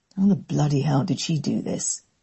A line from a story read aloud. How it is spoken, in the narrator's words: he muttered through gritted teeth